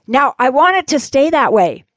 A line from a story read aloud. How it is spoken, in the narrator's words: You'll yell